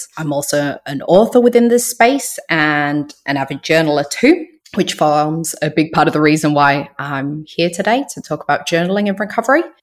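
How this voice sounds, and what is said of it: Unusual mixed British-Australian accent. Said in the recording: “I'm originally from the UK. I lived in Australia for about 17 years, hence my unusual accent.”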